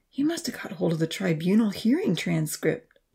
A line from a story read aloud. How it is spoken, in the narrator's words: Jack sighed